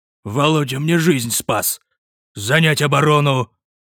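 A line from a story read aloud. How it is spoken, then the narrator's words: Growled command. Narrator (Russian): Рыкнул Твердлов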